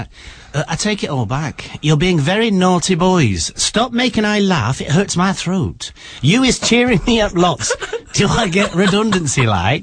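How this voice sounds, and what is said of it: Imitation of a listener's voice. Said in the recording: “I can't do it in a Carol voice... What is your Carol voice?... I don't sound like that.”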